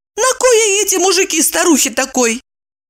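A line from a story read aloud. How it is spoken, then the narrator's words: Laughing, mock-grand announcer voice. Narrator (Russian): Ева рассмеялась и хорошо поставленным голосом, подражая рекламным дивам, с надменной патетикой сообщила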